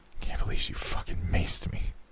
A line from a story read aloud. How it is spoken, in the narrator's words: Jimmy said under his breath